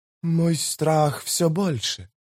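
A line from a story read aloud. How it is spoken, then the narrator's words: Whisper. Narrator (Russian): прошептала Хенарас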